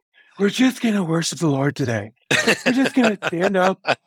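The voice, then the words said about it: Breathy worship-leader voice. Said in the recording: “they always did the breathy voice”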